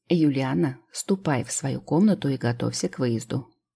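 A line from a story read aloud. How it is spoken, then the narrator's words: Tired parent speaking. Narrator (Russian): устало проговорил родитель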